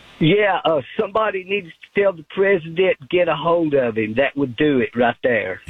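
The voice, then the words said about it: Tennessee Southern accent. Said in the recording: “I do love that Tennessee accent. You can't pretend to be from Tennessee. You either sound like that or you're not from Tennessee.”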